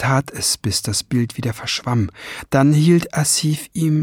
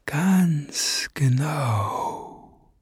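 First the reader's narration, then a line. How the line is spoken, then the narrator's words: Breathy whisper. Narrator (German): hauchte er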